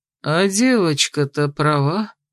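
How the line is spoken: Respectful drawl. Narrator (Russian): с уважением протянул Дагберт

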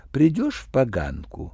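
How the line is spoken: Nervous cooing. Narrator (Russian): проворковала она, волнуясь

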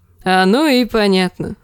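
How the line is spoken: Laughing. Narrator (Russian): засмеялся он

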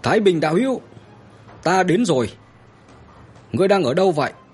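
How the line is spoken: Shouting loudly again. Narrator (Vietnamese): hắn lại hét lớn một lần nữa

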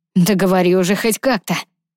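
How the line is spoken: Growled. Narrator (Russian): прорычал Ронан

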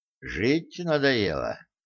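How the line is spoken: Grim question. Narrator (Russian): мрачно спросил он

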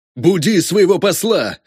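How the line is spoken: Harsh barked shout. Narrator (Russian): рявкнул всадник

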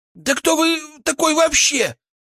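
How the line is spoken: Shrill squeal. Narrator (Russian): взвизгнул Величко

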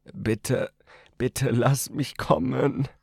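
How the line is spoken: Moaning plea. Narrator (German): stöhnte er

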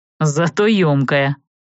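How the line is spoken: Wry snort. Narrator (Russian): хмыкнул Джад

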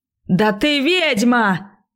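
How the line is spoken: Roared. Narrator (Russian): взревел

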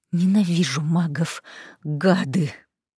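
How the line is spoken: Cobra-like hiss. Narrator (Russian): Прошипела, как кобра

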